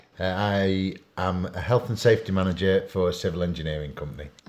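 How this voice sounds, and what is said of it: Yorkshire English accent. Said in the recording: “do you have an accent? ... I think so, yeah. So I'm told. ... I'm from Sheffield in England. ... It's in the north. ... Yeah, in Yorkshire.”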